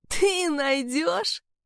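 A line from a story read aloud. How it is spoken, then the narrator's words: Angry, hysterical laughter. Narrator (Russian): он рассмеялся зло, истерично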